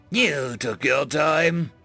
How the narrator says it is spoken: Zahn spat

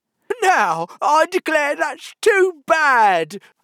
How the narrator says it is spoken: Humpty Dumpty cried, breaking into a sudden passion

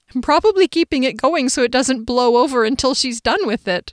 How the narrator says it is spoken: Jillian laughed

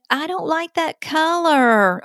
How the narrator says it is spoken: a child says in a whiny voice

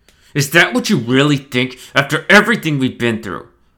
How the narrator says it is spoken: Stone said through gritted teeth

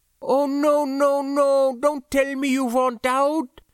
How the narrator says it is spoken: she moaned, looking instantly crestfallen

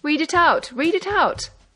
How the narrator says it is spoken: they cried louder

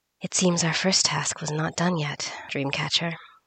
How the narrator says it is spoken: murmured the beaded lady

